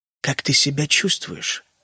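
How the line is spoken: Quiet, very distinct dragon. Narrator (Russian): спросил дракон тихо, но очень отчетливо

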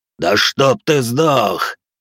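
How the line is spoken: Roaring, yelling demon. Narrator (Russian): Прорычал, проорал демон

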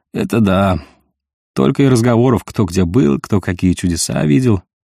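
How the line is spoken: Gloomy remark. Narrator (Russian): мрачно заметил Санька, уткнувшись в тарелку

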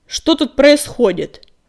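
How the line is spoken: Barking. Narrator (Russian): рявкнул коготь

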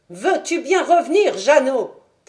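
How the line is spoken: Female shout. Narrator (French): cria-t-elle

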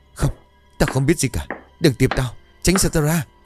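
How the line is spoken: Panting, frightened woman. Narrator (Vietnamese): Cô thở hổn hển vì cứ ngỡ đâu thoát được hồn ma, vô thức bảo

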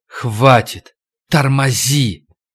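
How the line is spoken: Mute scream, wheezing. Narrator (Russian): Витька в немом крике раззевал рот, сипел

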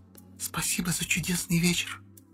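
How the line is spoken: Whispered. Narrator (Russian): прошептала Катя

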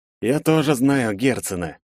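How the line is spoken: Through gritted teeth. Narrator (Russian): сквозь зубы произнёс я

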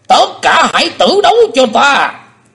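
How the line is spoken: Stunned then roaring. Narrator (Vietnamese): Âm ma giáo chủ sững đi một chập rồi gầm to

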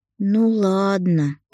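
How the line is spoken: Disappointed drawl. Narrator (Russian): протянула разочарованно дочь Демьяна

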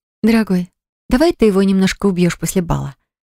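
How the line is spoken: Affectionate voice. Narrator (Russian): произнесла ласково

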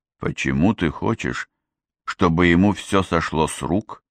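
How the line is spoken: Quiet question. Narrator (Russian): тихо поинтересовался чародей

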